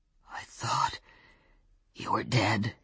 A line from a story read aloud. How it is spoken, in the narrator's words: he said, his voice a bare rasp